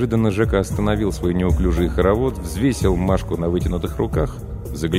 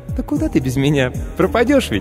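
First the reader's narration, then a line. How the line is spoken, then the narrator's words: Squeaky. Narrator (Russian): Пискнула автоклав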